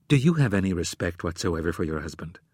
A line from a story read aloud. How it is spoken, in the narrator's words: In a chilly tone, she asked